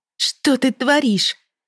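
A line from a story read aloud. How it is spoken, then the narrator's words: Exclaiming. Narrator (Russian): воскликнула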